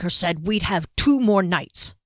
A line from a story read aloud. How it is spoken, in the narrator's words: Janet grumbled